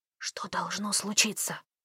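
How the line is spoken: Whispered question. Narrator (Russian): шепотом спросил Кевин

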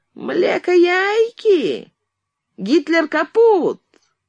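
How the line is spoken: Nasty, mockingly thin voice. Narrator (Russian): он произнес противным, оскорбительно тоненьким голосом

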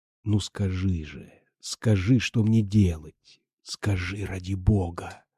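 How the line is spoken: Passionate whisper. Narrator (Russian): Страстно шептал он

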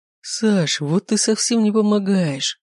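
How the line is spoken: Groaning. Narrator (Russian): простонал Дерек

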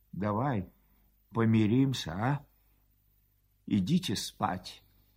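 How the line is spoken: Quiet, with a sly smile. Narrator (Russian): Матушкин бледный ... скрывая в усах нехорошую улыбку, тихо предлагал ей

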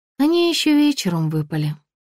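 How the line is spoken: Sigh. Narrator (Russian): вздохнула я

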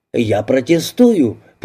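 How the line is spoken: Thundering voice. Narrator (Russian): прогремел он

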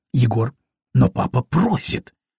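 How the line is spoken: Indignant whisper. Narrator (Russian): возмущенно зашептала она

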